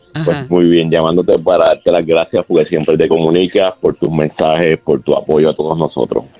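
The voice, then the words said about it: Radio announcer-like voice. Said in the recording (Spanish): “esa voz de locutor.”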